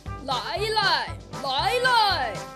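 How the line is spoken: Loud shouting. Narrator (Chinese): 那个声音大叫着

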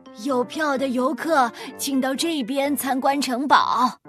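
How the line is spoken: Loud calling voice. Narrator (Chinese): 尽可能地提高声音喊道

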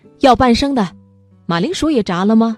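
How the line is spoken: Surprised happy shout. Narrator (Chinese): 荷西很意外又高兴，大叫

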